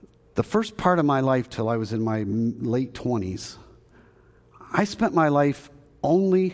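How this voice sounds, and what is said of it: Usual voice. Nothing is said of it.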